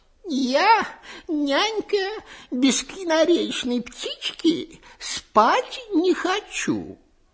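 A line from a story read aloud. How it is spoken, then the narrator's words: Capricious whimpering. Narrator (Russian): Царевна Марьяна привередничала, хныкала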